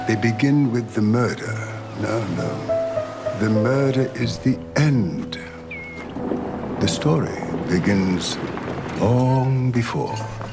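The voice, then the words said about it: Very British, BBC-style English accent. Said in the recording (Catalan): “accent tan british, tan BBC”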